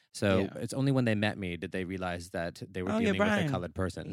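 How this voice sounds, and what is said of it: American accent. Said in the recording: “I sound American. ... I don't sound ethnic at all.”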